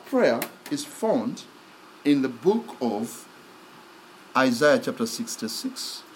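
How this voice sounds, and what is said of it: African accent. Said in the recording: “my African accent”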